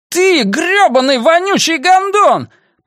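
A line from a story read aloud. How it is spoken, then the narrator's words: Furious roar. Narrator (Russian): проревел Сирлс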